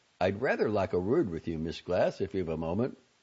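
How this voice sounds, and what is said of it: Thick upper-class Mayfair English accent. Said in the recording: “an almost unintelligibly thick Mayfair accent”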